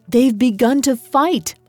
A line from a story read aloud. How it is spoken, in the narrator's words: I cried